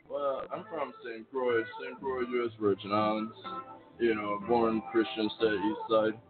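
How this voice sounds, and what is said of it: Noticeable regional accent. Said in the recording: “We hear the accent”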